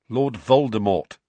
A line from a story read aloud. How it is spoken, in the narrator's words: said Harry